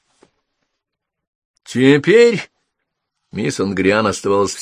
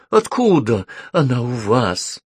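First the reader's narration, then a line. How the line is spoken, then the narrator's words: Low passionate voice. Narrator (Russian): спросила она низким страстным голосом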